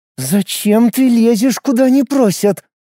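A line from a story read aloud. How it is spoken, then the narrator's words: Spoken through teeth. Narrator (Russian): процедила Шуйская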